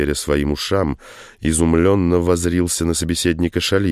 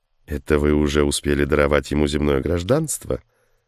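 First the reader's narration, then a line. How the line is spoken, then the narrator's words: Mocking question. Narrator (Russian): Насмешливым тоном осведомился Шалиев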